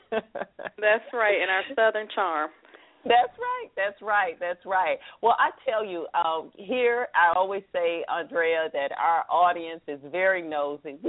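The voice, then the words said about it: Southern American accent. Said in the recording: “Proud of my Southern accent.”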